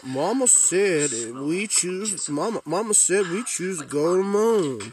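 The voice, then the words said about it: JFK meets Forrest Gump accent. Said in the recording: “Robert Pattinson has a weird combination of a JFK meets Forrest Gump accent in this film.”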